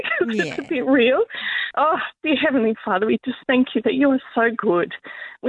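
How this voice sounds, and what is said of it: Teary, emotional voice. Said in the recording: “excuse me if it's a bit teary.”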